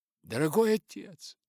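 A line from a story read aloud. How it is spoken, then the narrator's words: Exclaimed. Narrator (Russian): воскликнула Элизабет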